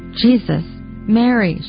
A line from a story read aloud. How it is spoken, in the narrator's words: she cried